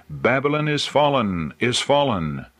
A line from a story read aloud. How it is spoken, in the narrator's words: he cried